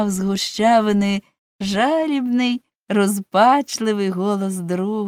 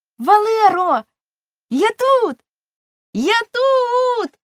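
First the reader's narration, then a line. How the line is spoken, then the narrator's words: Full-strength scream. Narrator (Ukrainian): Щосили закричав Глечик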